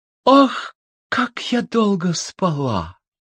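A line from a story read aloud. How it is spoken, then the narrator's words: Sighing, just-awakened woman. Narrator (Russian): Красавица … вздохнула … говорит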